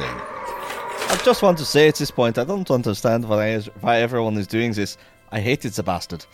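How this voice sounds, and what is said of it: Put-on character accent. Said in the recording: “I apologize for the accent. I have a migraine. It's going to be worse than usual.”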